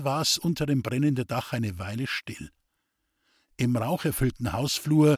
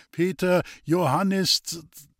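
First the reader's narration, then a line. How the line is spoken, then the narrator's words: Guide's slightly unsure voice. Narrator (German): Der Führer sagte mit etwas unsicherer Stimme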